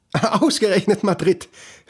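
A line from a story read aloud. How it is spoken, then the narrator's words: Mother speaking, laughing. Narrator (German): seine Mutter sagen und lachen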